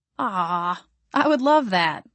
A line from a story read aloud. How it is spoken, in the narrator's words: I chuckled